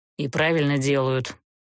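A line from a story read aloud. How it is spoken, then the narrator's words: Grumbling. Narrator (Russian): проворчал Герт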